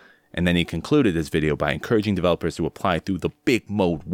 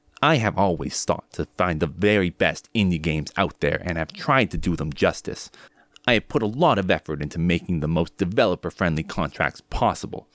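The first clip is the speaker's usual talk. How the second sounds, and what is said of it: Imitates another person's voice. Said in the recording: “I'm going to try to do my best Video Game Donkey impression.”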